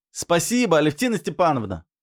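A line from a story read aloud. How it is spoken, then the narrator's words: Shouting through closed door. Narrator (Russian): крикнул я в закрытую кухонную дверь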